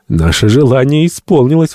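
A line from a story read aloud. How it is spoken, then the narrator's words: Exclaimed, doctor. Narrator (Russian): воскликнул доктор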